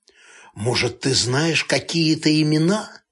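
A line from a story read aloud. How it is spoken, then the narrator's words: Hoarse whisper. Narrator (Russian): Барков спросил, понизив голос до хриплого шепота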